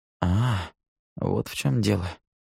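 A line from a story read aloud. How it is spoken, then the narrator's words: Quiet. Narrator (Russian): тихо произнес Нил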